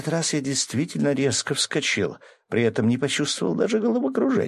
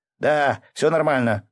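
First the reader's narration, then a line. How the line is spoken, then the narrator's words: Shouted. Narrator (Russian): крикнул я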